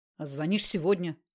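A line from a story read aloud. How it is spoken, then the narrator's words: Grumbled. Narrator (Russian): буркнул Караед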